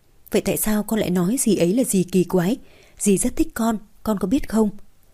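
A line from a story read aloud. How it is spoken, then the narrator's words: Gentle step-by-step guiding. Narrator (Vietnamese): Hạ Diệp Chi hướng dẫn từng bước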